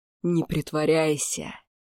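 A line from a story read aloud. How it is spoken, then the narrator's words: Old man hissing like a snake. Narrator (Russian): прошипел старик, словно змея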